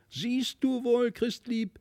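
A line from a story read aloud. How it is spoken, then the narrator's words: Triumphant shout. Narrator (German): rief Felix nun triumphierend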